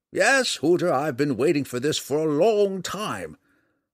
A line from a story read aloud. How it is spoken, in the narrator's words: Montelio said excitedly